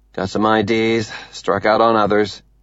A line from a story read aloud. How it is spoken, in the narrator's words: Avi says